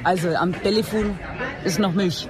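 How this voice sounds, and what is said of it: Hof Franconian dialect, soft consonants. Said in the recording (German): “wie sagt man an Hoferisch am Telefon ist noch Milch ... sämtliche harte Buchstaben. Ein hartes D existiert im Franken nicht”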